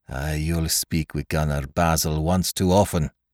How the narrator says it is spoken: growled

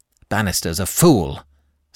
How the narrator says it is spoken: snapped Mr

